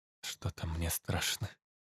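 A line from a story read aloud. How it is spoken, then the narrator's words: Quiet, uneasy. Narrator (Russian): тихо сказала Надя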